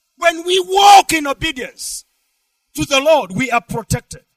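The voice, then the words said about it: Shouting preacher. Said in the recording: “I'm shouting”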